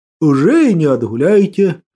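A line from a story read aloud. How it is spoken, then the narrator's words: Sad smiling tone. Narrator (Russian): печально улыбнулся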